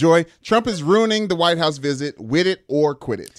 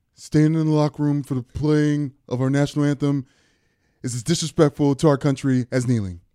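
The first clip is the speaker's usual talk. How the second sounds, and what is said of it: Imitates another person's voice. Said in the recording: “That was a Trump impression.”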